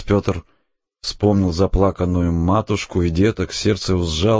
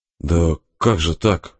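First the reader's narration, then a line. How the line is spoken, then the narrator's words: Mumbling, bewildered. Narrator (Russian): забормотал отец Петр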